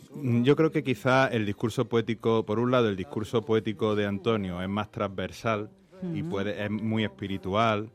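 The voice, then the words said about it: Andalusian Córdoba accent. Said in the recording (Spanish): “ese acento de Córdoba, qué maravilla ... Acento machadiano, andaluz”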